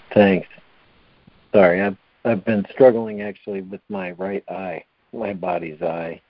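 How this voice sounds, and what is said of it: Hoarse voice. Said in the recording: “my nose runs, and I sneeze. Now I'm hoarse.”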